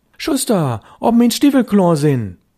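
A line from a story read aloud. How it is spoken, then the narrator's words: Calling louder. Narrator (German): Störtebecker rief schon lauter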